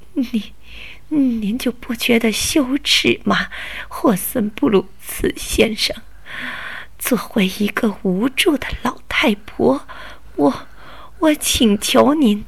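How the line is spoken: Sobbing grandmother. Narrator (Chinese): 奶奶抽噎了几下，就带着哭腔的说

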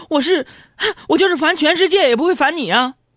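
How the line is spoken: Laughing. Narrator (Chinese): 我就笑着说

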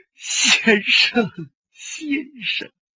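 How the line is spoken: Sobbing uncontrollably. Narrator (Chinese): 泪流满面，痛哭失声

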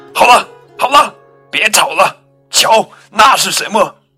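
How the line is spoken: Loud shout. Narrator (Chinese): 肉排大喊一声

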